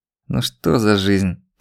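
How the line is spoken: Groan. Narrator (Russian): простонал Жариков

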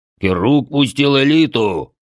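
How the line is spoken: Bloodthirsty snort. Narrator (Russian): кровожадно хмыкнул Бедвар

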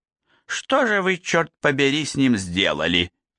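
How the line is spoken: Rude woman's question. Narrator (Russian): грубо спросила женщина

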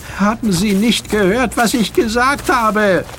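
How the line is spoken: Boy calling out while dragged. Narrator (German): rief der Junge, als er fortgeschleift wurde

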